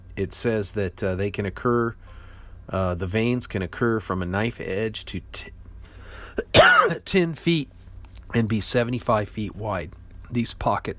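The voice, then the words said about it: Strained, fading voice. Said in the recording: “it looks like I'm losing my voice here”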